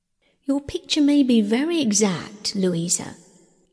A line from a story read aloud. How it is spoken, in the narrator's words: said Bingley